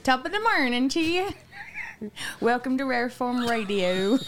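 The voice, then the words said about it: Put-on Irish accent. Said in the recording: “in your best Irish ... Is that your Irish or your Asian?”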